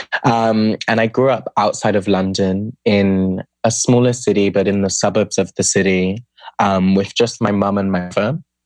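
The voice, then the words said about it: British accent. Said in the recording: “I'm from the UK, from the accent.”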